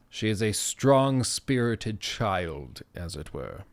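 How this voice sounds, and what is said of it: Put-on British accent. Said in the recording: “I don't know why that was in a British accent.”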